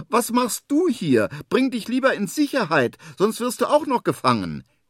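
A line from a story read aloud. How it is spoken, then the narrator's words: Calling upward. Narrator (German): ruft nach oben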